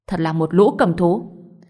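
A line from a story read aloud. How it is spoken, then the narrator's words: Angry. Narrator (Vietnamese): Ngô Bình tức giận nói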